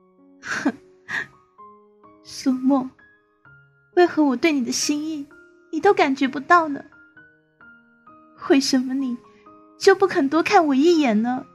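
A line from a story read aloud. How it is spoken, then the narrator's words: Bitter laugh. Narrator (Chinese): 他苦笑一声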